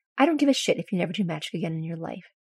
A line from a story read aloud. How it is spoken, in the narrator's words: she says firmly